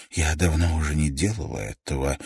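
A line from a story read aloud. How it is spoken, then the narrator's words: Breathy exhale. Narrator (Russian): выдохнула Пэт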